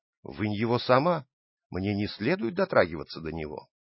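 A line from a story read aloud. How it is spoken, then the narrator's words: Calm reply. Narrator (Russian): Анна ответила совершенно спокойно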